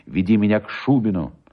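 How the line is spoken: Firm voice. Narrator (Russian): Мария сказала ему твердым голосом

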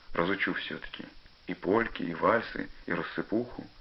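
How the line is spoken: Quiet, dreamy. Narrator (Russian): тихо, мечтательно сказал Пашка

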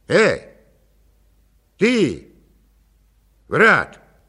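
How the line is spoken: Shouting in turn. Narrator (Russian): кричали они по очереди

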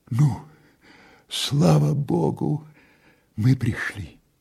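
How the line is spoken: Weak woman's voice. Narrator (Russian): сказала слабым голосом татарка

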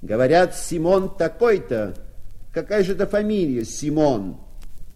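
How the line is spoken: Shout. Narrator (Russian): Парень крикнул ему

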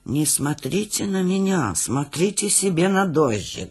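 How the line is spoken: Mumbling. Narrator (Russian): бормотал Гуськин

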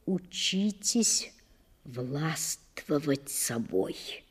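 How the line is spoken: Quiet, pleading advice. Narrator (Russian): Тихо посоветовал он, или, вернее сказать, попросил

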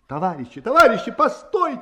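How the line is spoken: Shouting over noise. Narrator (Russian): кричал, стараясь перекричать общий гул

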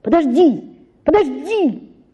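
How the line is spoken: Sudden shout. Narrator (Russian): закричал он, спохватившись

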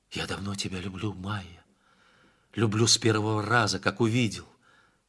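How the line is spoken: Whisper. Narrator (Russian): хан Сарымбеть прошептал

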